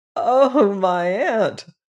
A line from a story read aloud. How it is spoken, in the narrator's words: he giggled hysterically